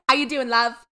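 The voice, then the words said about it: Put-on Essex accent. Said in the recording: “I can only do that Essex ... That's the only one”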